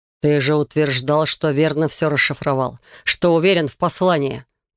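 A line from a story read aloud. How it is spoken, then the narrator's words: Hateful growl. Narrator (Russian): прорычал Рейган с ненавистью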